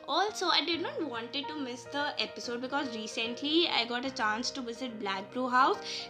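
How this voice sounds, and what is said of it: Strained voice from sore throat. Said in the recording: “sorry for my voice if it's coming bad ... I have a bad throat from past few days due to viral”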